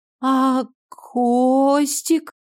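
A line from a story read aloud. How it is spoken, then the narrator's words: Barely breathed out. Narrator (Russian): Еле выдохнула Даша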